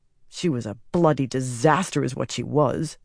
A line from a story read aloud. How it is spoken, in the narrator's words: Adalorna muttered